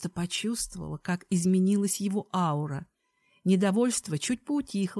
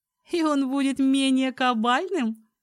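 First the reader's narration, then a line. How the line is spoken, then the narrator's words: Laughing. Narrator (Russian): рассмеялась я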